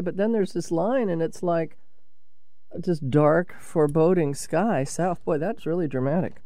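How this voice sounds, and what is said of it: Sick, congested-sounding voice. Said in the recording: “I'm sure you all can hear it in my voice. I've been kind of down with a cold this week”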